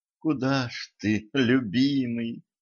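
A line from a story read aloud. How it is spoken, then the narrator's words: Moaning woman. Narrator (Russian): простонала принцесса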